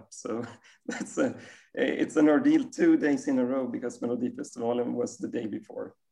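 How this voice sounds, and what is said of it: Slightly strained, worn voice. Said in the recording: “My voice is a little bad because my favourite team, Hammarby, scored 3 goals on the arch rivals”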